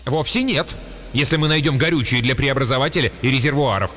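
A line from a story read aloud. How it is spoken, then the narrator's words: Sharp. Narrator (Russian): резко напомнил ему Блейн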